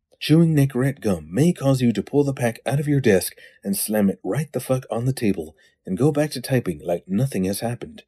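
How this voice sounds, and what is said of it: Mock advertisement disclaimer voice. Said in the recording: “in my disclaimer voice.”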